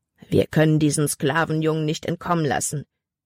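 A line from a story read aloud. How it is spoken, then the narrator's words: Growling. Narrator (German): knurrte ein anderer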